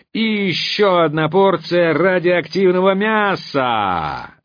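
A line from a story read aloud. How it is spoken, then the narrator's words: Roar. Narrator (Russian): взревел голос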